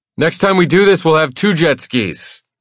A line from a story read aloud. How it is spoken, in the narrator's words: I shout